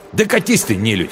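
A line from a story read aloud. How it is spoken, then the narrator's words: Angry snap. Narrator (Russian): зло огрызнулся он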